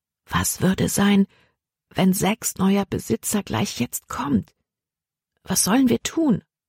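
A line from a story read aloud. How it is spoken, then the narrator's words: Said quietly. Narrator (German): sagte sie leise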